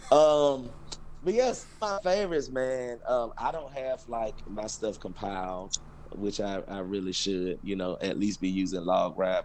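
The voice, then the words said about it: Southern US Georgia accent. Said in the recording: “Georgia boys, deep south. I'm sure you can tell by the accent.”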